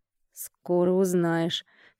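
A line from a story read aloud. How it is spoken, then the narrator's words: Quiet dragon reply. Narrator (Russian): тихо ответил дракон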